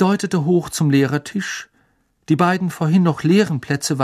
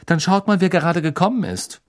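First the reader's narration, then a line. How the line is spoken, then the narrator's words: Said curtly. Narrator (German): sagte Hermine schroff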